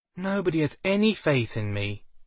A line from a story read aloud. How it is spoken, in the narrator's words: Belle sighed